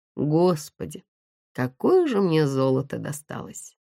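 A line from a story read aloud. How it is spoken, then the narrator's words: Heavy sigh. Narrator (Russian): Как-то даже тяжело вздохнул Никита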